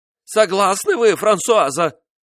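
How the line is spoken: Fearful cry. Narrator (Russian): вскрикнул, и страх зазвучал в его голосе

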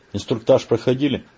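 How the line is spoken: Grumbling. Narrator (Russian): пробурчал он вместо приветствия

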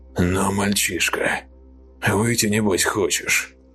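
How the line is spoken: Whisper. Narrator (Russian): прошептал он

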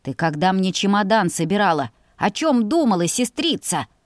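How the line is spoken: Growled. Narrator (Russian): Зарычал он

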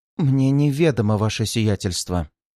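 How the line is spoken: Even, flat tone. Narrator (Russian): ровным тоном ответила помощница советника

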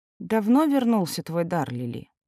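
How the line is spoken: Tired, defeated. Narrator (Russian): устало спросила она, окончательно признавая свое поражение

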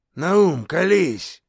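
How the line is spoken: Menacing demand, boar. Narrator (Russian): грозно потребовал кабан

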